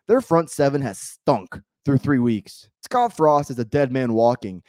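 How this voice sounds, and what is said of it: Hoarse voice cutting in and out. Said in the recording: “my voice is kind of coming in and out. Yelled a lot yesterday”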